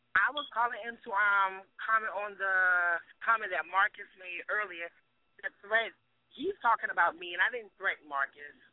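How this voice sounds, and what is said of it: Very hoarse voice. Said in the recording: “I'm very hoarse.”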